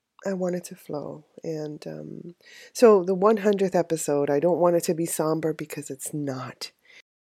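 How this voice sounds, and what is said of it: Voice strained from crying. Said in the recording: “you can probably hear it in my voice. I've been crying for days”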